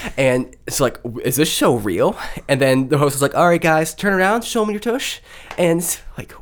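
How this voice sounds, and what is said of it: Usual voice. Nothing is said of it.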